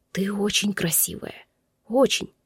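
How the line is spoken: Earnest whisper. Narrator (Russian): Серьезно, прошептал он

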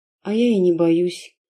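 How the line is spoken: Tired whisper, young woman. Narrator (Russian): устало прошептала девушка

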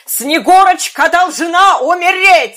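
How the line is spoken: Exclamation. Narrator (Russian): воскликнула она

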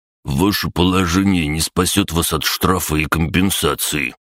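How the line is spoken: Through gritted teeth. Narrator (Russian): процедил Олесий

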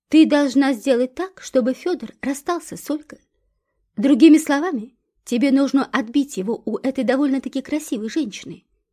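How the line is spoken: Plain. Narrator (Russian): ответил Карл Антонович

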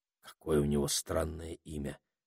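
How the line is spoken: Quiet. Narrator (Russian): тихонько сказал Питер Саймону

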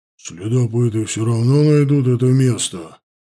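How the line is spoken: Grumbled. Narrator (Russian): буркнул Махнач

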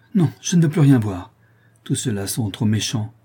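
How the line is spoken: Exclaimed. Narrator (French): s'écria-t-elle

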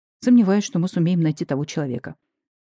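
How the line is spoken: Sighing. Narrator (Russian): вздохнул Анатолий Степанович

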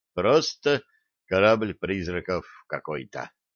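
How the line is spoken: Dejected sigh. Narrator (Russian): удрученно вздохнул Блад

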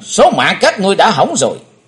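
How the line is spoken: Loud shout. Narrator (Vietnamese): Chí Tôn thét lớn

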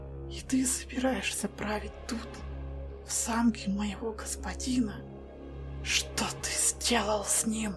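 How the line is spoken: Whisper. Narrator (Russian): прошептала она

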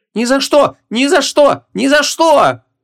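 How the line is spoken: Shrieking in chorus. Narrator (Russian): Хором завизжали принцессы

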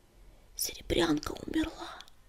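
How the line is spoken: Barely audible whisper. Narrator (Russian): еле слышно прошептала Пепелюшка

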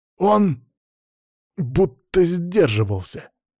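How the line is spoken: Angry, through teeth. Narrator (Russian): со злостью процедил Антон

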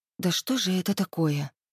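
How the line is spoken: Bewildered whisper to herself. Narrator (Russian): прошептала уже себе под нос, не зная, что делать

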